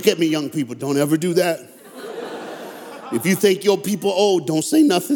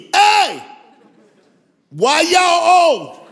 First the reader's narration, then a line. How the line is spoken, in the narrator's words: I yelled to the front seat